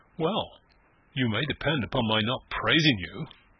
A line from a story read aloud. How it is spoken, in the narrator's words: she said dryly